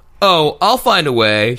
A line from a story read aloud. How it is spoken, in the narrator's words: she said in a happy tone